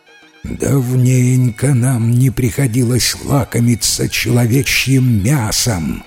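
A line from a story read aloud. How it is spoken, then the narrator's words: Impatient hungry female growls. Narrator (Russian): нетерпеливо прорычали голодные девы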